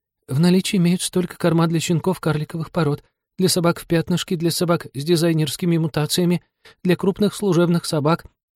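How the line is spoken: Frightened babbling. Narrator (Russian): Та опять обесцветилась и залепетала

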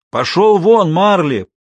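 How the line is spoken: Shouted into ear. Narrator (Russian): прокричал в рваное ухо пса

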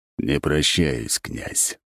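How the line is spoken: Cold. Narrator (Russian): холодно добавил он

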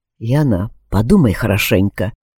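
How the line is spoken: Quiet. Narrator (Russian): тихо произнес Алекс

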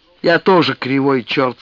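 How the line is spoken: Mock-stern. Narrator (Russian): сказал он нарочито строго

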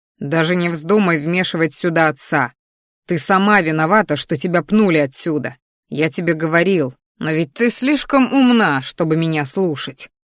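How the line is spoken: Growling. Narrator (Russian): рычал я

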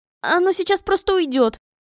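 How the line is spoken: Desperate squeak. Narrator (Russian): пропищала я, в отчаянии

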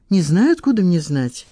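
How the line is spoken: Snapping. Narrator (Russian): огрызнулась Лиза

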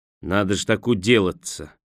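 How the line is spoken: Dejected voice. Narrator (Russian): упавшим голосом проговорил он

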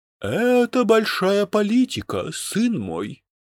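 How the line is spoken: Sighing. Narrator (Russian): вздохнул Дрекозиус

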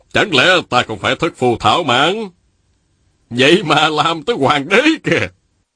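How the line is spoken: Laughing, resounding declaration. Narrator (Vietnamese): Lý Tự Thành cười lớn rồi dõng dạc nói

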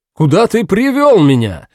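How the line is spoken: Shout. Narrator (Russian): закричал Амеро

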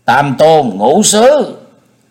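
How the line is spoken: Loud threatening voice. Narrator (Vietnamese): Thiết Mộc Lê lớn tiếng dọa người

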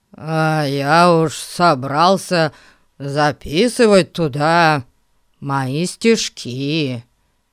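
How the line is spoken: Disappointed drawl. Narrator (Russian): разочарованно протянул Эрн

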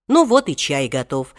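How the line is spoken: Cheerful. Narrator (Russian): весело сказал он

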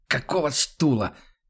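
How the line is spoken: Hoarse wheeze. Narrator (Russian): хрипит он

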